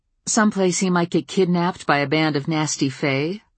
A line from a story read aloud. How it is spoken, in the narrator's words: I asked dryly